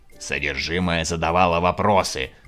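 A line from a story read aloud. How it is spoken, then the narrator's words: Barking saleswoman. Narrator (Russian): рявкнула продавщица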